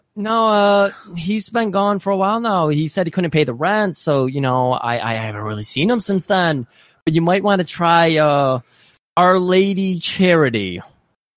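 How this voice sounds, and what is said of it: Put-on Michigan accent. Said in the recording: “You got to stop with the accent, please. ... That's a Michigan accent”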